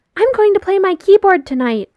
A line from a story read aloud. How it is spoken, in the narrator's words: Ryan shouts from over Will's shoulder, kicking his legs in glee